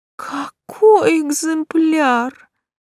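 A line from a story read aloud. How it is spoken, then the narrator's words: Sigh. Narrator (Russian): вздохнула Лиза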